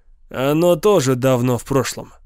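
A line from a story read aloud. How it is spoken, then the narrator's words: Sighing. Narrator (Russian): вздохнул Юнгер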